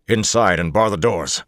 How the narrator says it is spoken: Lan snapped

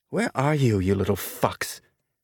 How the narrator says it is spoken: Tanaka muttered

